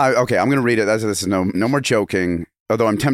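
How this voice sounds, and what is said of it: Usual voice. Nothing is said of it.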